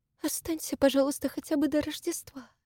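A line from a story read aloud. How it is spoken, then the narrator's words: Weak pleading voice. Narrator (Russian): слабым голосом просила она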